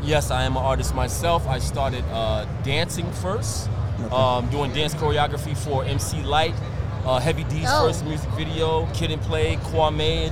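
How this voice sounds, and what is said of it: Brooklyn New York accent. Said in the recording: “Are you from New York? ... Brooklyn ... You can't tell by the voice ... You can't tell by my fucking accent over here ... Fucking accent.”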